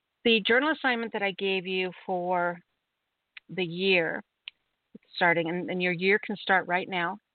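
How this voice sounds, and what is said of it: Congested voice from a cold. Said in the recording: “I'm not feeling really good. I have a cold or something ... if I sound kind of funny”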